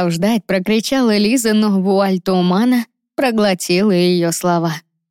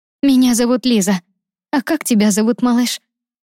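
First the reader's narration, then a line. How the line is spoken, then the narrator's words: Gentle, affectionate question. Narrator (Russian): Ласково спросила она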